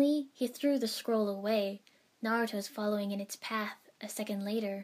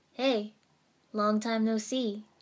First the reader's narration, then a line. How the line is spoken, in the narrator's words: Iruka-sensei said